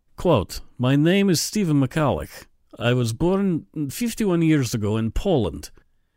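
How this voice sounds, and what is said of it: Slight Polish accent. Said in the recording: “he's Polish, so he has a bit of a Polish accent.”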